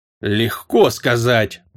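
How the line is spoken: Grumbling. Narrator (Russian): проворчал темный

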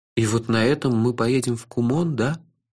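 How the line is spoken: Dejected, sinking voice. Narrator (Russian): упавшим голосом спросил я

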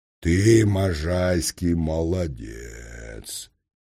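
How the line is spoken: Deep bass voice. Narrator (Russian): Последняя фраза была почему-то сказана басом

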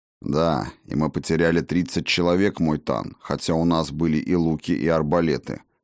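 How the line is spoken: Gloomy reply. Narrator (Russian): мрачно ответил подошедший Лодин

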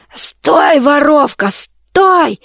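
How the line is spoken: Hoarse roar from behind. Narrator (Russian): ревел сзади хриплый голос

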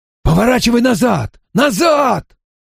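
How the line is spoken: Yelling. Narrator (Russian): орал Попли

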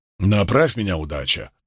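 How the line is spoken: Grumble. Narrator (Russian): проворчал Доман

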